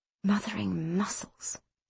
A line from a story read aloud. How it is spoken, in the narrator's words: he breathed